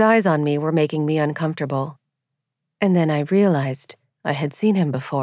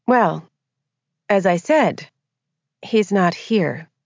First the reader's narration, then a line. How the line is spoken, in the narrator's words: I replied coolly